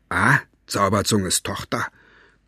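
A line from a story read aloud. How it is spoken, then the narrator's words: Mocking growl. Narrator (German): knurrte Cockerell höhnisch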